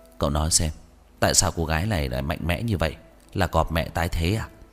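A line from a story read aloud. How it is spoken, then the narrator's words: Muttering with rising-falling tone. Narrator (Vietnamese): ngữ điệu lên xuống, nói lẩm bẩm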